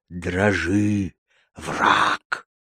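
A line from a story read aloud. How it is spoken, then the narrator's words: Cursing in same voice. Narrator (Russian): выругался Бенни таким же голосом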